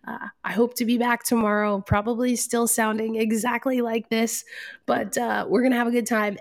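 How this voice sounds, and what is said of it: Raspy voice from a cold. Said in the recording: “sick during the launch day ... I get head colds and sinus infections ... my raspy voice ... I obviously am not feeling well today”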